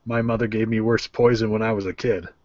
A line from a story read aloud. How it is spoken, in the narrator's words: mutters something like